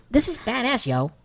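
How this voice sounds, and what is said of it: Imitates a TV character's voice. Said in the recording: “in my Breaking Bad voice”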